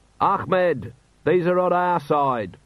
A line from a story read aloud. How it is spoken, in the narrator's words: Vimes yelled